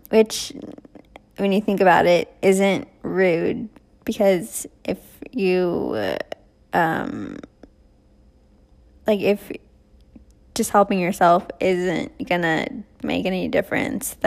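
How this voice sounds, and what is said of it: Slightly weird, sore-throat voice. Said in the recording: “my voice is a little weird today, my throat is not good ... sucking up cough drops”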